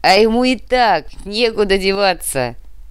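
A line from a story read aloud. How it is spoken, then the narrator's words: Laughing. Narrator (Russian): рассмеялся Осиновский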